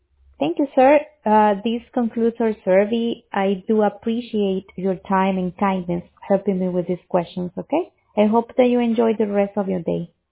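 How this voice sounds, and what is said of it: Very strong, hard-to-understand accent. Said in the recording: “You have a very strong accent, and it's very hard to understand what you're saying.”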